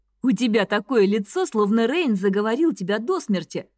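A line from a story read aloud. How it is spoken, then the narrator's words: Laughing. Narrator (Russian): рассмеялся Лем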